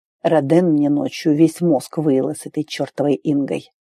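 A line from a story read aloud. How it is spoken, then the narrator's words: Quiet confession. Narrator (Russian): тихо признался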